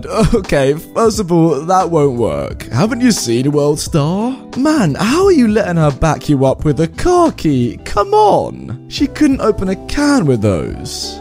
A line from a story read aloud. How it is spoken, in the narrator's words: giggled and said